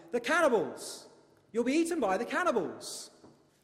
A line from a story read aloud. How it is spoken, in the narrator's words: crying out, he shouted